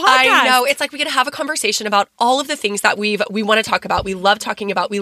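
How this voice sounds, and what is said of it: Strained voice, losing her voice. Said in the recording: “I am losing my voice. ... I sound a little bit funny”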